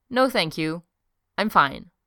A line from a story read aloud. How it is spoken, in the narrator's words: Steve said firmly